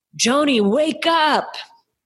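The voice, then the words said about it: Weak imitation of thick Indian accent. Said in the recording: “In his thick Indian accent, mind you. I didn't do a good impersonation of that.”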